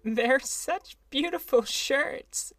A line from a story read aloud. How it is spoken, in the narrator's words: she sobbed, her voice muffled in the thick folds